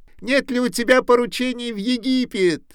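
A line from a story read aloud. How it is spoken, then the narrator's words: Shouting. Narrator (Russian): кричала она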